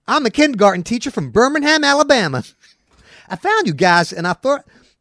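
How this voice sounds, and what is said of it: Put-on Southern Alabama accent. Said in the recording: “I'm a kindergarten teacher from Birmingham, Alabama. Should I do the accent?”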